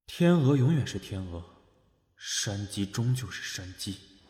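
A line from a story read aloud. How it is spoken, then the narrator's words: Inner thought, sighing. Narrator (Chinese): 李东岳摇头叹了口气，心道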